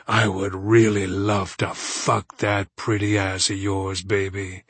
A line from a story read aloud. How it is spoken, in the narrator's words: he growls